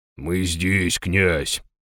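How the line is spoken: Deep bass voice. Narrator (Russian): пробасил Дир

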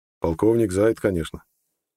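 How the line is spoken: Calm. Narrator (Russian): спокойно сказал Нед

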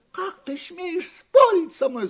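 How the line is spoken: Shouted. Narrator (Russian): закричала остроноска

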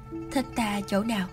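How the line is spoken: Hoarse question. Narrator (Vietnamese): Đoàn Lăng giọng nói khàn khàn hỏi y

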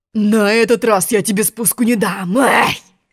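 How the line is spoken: Growling lion. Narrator (Russian): рыкнул лев

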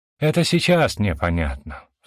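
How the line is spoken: Sigh. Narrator (Russian): вздохнула Лидия

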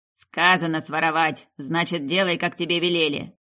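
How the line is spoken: Gruff bark. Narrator (Russian): Рявкнул тот, что повыше

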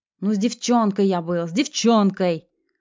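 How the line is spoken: Desperate shout. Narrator (Russian): Отчаянно выкрикнул он

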